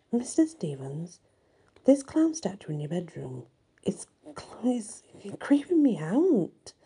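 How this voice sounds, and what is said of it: Nervous voice. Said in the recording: “in a nervous voice.”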